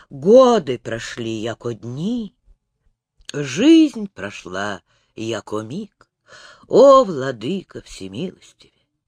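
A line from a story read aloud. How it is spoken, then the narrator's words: Horrified involuntary whisper. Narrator (Russian): невольно шептал с ужасом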